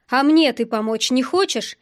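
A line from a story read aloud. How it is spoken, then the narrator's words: Angry question. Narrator (Russian): спросил я зло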